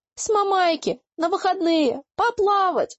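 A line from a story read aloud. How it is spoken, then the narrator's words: Howling in chorus. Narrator (Russian): хором взвыли мы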